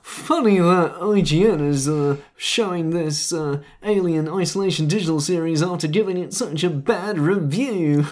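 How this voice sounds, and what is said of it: Mock voice of online commenters. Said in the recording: “It's a very good impression. ... That was the internet. ... The internet, the voice of the internet.”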